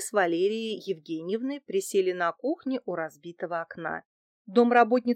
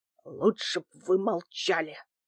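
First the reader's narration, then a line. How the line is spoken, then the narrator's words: Angry hiss. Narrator (Russian): зашипел на меня Дмитрий Иванович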